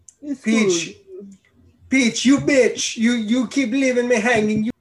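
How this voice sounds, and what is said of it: Bad stereotypical Italian Mario accent. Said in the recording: “You just have to have a guy talking a stereotypical Italian accent ... That's a horrible Italian accent.”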